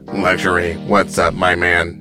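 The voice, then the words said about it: Robot voice. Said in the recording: “that was a robot voice.”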